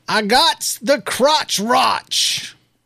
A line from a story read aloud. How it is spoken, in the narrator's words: the lady exclaimed in a loud voice that made all the other customers turn and stare